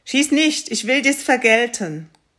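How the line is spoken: Fish calling out. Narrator (German): rief der Fisch

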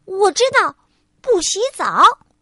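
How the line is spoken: Shouting. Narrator (Chinese): 百事通小姐喊道

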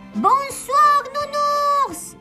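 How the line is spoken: Exclaimed. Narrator (French): s'écria Souricette

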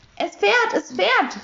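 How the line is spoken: Excited shout. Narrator (German): rief Herr Taschenbier begeistert

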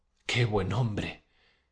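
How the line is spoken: Exclaimed. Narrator (Spanish): exclamó Pulqueria Alexandrovna

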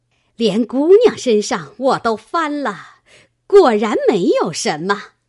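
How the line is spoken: Giggling. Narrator (Chinese): 嘻嘻笑道

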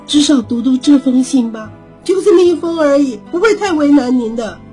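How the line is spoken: Pleading. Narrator (Chinese): 哀求着说

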